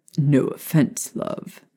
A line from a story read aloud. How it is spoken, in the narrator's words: Sirius said with a laugh